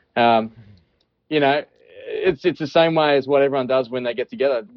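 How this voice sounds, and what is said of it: Australian accent. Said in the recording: “There's my Australian accent”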